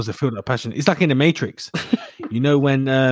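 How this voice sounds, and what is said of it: Usual voice. Nothing is said of it.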